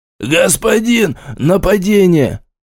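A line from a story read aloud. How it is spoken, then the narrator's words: Watchman's exclamation. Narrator (Russian): воскликнуть сторож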